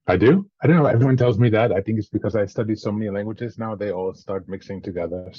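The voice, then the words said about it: Slight French-sounding accent. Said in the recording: “why do you have an accent? ... you sound like you're from France, kind of.”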